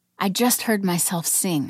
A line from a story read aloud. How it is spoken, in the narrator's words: I whispered